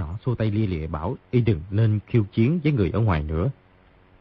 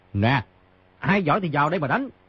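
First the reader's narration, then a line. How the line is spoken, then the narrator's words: Loud laughing voice. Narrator (Vietnamese): Người trên giường hít sâu vài hơi, cao giọng cười, nói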